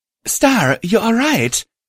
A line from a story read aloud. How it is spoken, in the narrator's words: she exclaimed